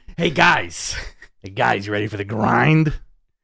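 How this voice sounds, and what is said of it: Imitates another person's voice. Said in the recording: “My Sable impression... That's a good Sable.”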